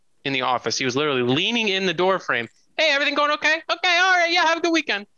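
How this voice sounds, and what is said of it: Imitates another person's voice. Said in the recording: “that's a pretty spot on impersonation ... That sounded good.”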